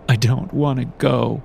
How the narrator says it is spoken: I sobbed

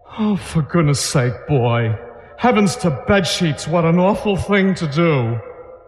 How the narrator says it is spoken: moaned

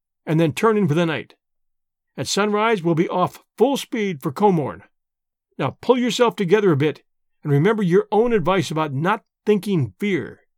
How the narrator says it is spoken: I said firmly

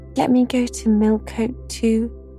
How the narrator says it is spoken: she pleaded

